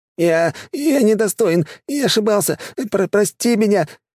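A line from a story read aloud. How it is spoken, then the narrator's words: Mumbling, babbling. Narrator (Russian): лепетал мужик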